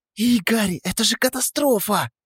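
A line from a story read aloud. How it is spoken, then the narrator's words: Nervous hiss. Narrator (Russian): зашипела она, нервно теребя пуговицу на пиджаке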